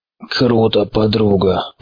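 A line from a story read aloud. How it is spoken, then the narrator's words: Weary mumble. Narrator (Russian): пробормотал енот, утомленно опуская голову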